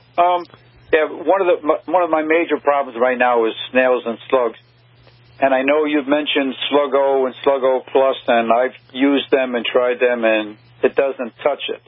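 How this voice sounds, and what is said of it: Brooklyn accent. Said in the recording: “that's my Brooklyn accent coming out”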